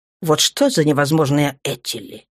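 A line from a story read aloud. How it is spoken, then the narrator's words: Grumbling. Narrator (Russian): проворчал он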